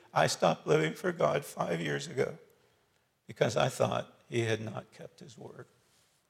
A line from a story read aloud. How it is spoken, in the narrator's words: Sobbing uncontrollably, she added